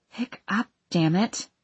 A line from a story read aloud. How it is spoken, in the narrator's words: I mumbled